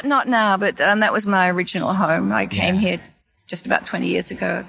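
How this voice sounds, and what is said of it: Australian accent. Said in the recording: “your accent ... Is it Australia? ... Yes.”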